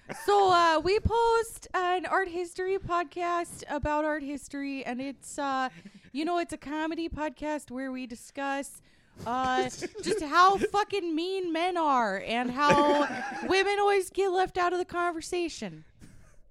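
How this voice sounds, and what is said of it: Imitates another person's voice. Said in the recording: “I'm going to do an impression of Andrea now”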